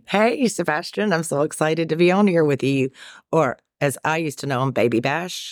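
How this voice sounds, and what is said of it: Fast-talking Southern Carolina accent. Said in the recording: “you've got an accent... It sounds a little Carolina-ish... I'm a fast-talking Southerner”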